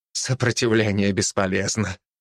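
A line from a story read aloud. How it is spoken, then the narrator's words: Muttered. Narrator (Russian): пробормотал Джеймс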